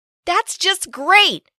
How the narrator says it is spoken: I complained loudly

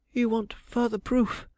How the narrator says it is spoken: she hurriedly gasped

